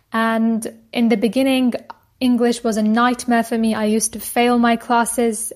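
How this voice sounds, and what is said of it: British English accent. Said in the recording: “I acquired a British accent completely on my own using podcasts and self-study”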